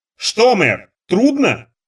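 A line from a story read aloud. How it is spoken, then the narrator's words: Shouted. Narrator (Russian): крикнула она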